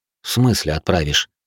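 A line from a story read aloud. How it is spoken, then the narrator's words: Snorting grunt. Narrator (Russian): хмыкнул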